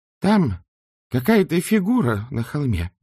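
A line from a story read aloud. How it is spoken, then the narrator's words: Exclamation. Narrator (Russian): воскликнула она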